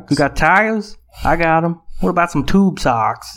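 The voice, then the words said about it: Put-on accent for a character. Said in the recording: “the little accent you gave him”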